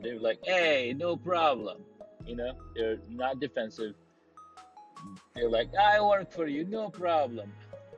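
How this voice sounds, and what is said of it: Put-on Italian accent. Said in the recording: “I don't even know if that's the correct accent for Italian. So please forgive me on that one.”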